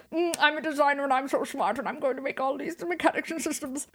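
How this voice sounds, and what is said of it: Boring imitation of another person's voice. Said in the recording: “That's a really good boring Todd Howard impression ... Spot on.”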